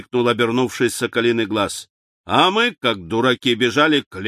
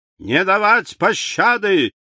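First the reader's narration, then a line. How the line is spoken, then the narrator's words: Shout in French. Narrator (Russian): по-французски крикнул один из преследователей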